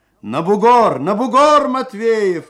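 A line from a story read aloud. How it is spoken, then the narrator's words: Shout. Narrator (Russian): крикнул Алексей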